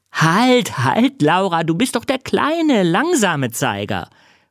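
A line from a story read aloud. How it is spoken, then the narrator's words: Calling out. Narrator (German): ruft, als die anderen Kinder lachen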